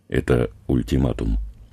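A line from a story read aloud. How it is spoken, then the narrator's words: Quiet. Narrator (Russian): негромко сказал Саша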